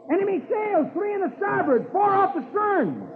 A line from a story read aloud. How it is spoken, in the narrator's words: Dick shouts